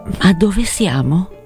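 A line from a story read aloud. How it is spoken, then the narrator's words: Quiet question. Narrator (Italian): chiese a bassa voce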